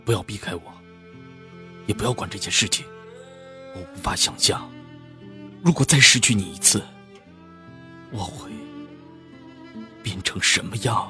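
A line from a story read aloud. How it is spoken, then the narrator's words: Tender murmur. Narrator (Chinese): 齐然喃喃道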